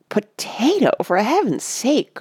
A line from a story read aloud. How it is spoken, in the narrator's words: cried Mona